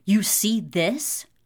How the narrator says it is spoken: Ryan growls into the man's face

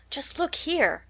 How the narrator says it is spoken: cried Katie

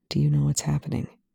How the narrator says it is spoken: Young says gently

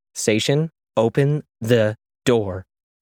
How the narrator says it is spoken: repeated slowly

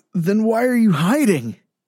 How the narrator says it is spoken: Blake wheezed

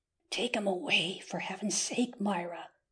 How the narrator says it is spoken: whispered Lady Mary

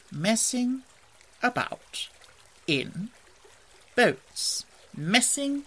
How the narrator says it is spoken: went on dreamily

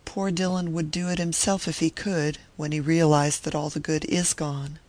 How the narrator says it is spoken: she sighed

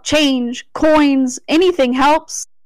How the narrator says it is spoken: Beggars called out

